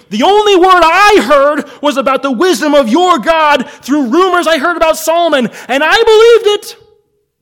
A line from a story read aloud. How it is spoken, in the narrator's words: the Queen of Sheba screaming